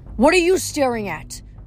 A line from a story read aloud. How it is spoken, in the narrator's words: Kinsey yelled at them